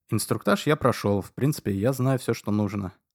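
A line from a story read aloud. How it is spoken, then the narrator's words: Plain. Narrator (Russian): ответил я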